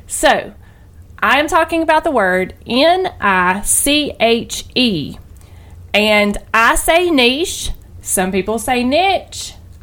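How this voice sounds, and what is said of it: Southern American accent. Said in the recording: “my accent, my wonderful southern accent, is probably throwing some of you off a little bit”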